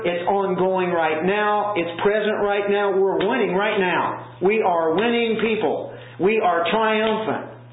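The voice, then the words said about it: Rousing coach-like pep talk delivery. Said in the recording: “I sound like a coach here winning the NCAA. You're going to the Final Four now.”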